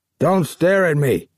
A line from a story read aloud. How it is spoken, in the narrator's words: he snapped